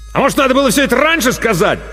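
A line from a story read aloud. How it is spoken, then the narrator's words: Angry bark from afar. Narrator (Russian): зло рявкнул Артамонов из коридора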